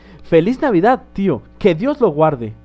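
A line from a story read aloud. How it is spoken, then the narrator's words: Cheerful exclaiming voice. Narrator (Spanish): exclamó una alegre voz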